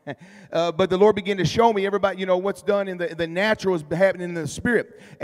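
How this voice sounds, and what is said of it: Strained, nearly lost voice. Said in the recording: “Excuse me, my voice is about gone.”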